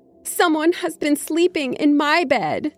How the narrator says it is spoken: she cried in her medium-sized voice

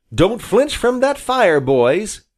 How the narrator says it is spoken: cried the admiral

